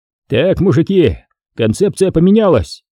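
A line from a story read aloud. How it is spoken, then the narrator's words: Loud shout. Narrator (Russian): громко крикнул ВВшник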